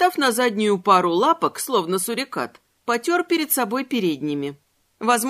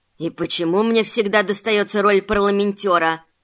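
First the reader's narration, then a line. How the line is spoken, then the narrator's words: Grumbling to himself. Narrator (Russian): Сам себе пробурчал таракашка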